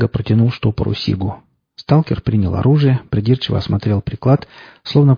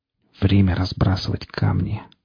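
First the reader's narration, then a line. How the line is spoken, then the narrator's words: Whisper. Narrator (Russian): прошептал он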